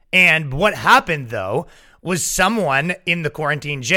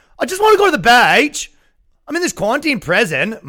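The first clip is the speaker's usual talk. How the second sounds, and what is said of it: Deliberately bad put-on Australian accent. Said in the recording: “Australian shit, too... My accents are notoriously bad.”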